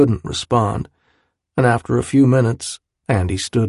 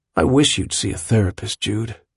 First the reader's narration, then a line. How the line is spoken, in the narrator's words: he added, and his voice was sad